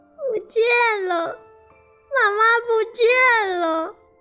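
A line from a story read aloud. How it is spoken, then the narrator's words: Sobbing sadly. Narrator (Chinese): 小狗哈奇伤心的大哭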